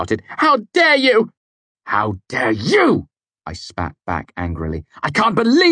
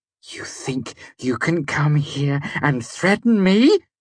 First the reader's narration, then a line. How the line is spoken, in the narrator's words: Devi hissed, her face a mask of rage